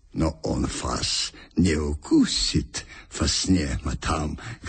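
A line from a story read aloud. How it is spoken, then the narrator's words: Gallant, chiming in. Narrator (Russian): галантерейно подхватил немец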